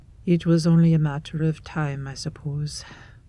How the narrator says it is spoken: Erebus sighs

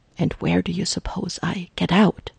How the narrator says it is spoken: Jarvis whispers back hotly

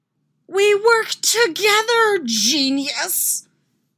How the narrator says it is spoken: He screams back

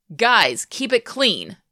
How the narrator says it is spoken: Hayden barks

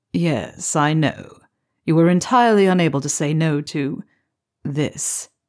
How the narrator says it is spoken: Severus drawls

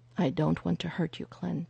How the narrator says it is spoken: Phil said softly

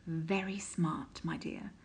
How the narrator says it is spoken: murmured

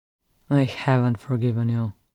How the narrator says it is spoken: he muttered sullenly

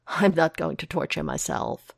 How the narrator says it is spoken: Foggy assures him, laughing sharply

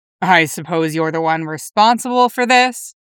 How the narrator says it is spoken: Logan grumbles

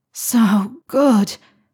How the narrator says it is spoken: Harry gasped at a particularly hard thrust

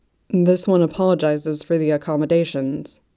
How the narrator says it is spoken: Luobingha said, the rumble of his voice wrapping Sentingto in a cocoon of comfort

